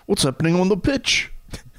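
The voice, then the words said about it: Put-on British accent. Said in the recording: “you could do a great UK accent, right? Do a Brighton accent. I don't want a Cockney accent. I want a Brighton accent. ... that wasn't Cockney.”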